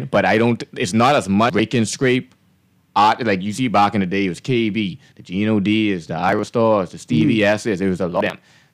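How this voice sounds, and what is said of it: Bahamian accent. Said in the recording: “And you sound Bahamian. ... I still talk Bahamian ... I don't lose my accent at all”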